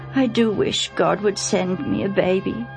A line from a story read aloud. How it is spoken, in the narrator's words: she sighed